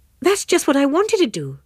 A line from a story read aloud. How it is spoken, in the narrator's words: Pansy exclaimed